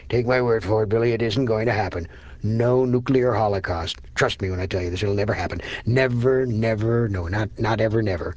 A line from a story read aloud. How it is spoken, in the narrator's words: Gaspar chuckled, and said with unassailable assurance